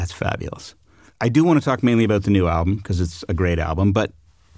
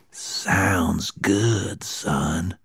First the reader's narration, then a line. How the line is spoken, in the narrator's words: he whispered